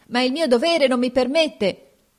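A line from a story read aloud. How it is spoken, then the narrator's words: Old man shouting. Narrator (Italian): il vecchio gridava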